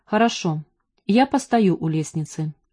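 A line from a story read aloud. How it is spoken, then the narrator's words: Calm. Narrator (Russian): спокойно сказала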